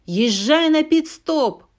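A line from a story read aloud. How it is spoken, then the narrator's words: Shout. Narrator (Russian): прокричал Хадсон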